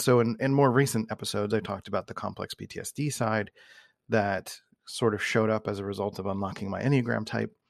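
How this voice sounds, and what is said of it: Low-energy, flat tired voice. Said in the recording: “I don't know if you can tell in my voice, but my energy is low.”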